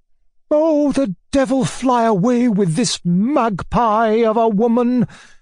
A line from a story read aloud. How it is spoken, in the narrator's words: cried the latter furiously